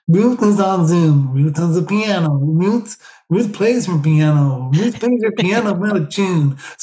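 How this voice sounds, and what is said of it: Nasal child-like American computer voice. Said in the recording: “this particular voice on my new computer, Junior, who's like a sort of 10-year-old nasal American accent. So he kind of talks like”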